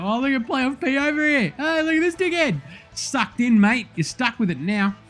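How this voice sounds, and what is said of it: Accent becoming stronger. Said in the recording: “my accent just kicked in”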